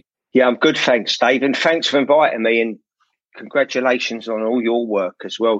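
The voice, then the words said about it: Cockney accent. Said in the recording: “it's nice to have someone on with a similar kind of accent. ... Cockney podcast ... But I'm actually not Cockney. You are.”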